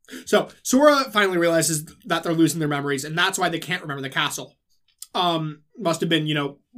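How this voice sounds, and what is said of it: Usual voice. Nothing is said of it.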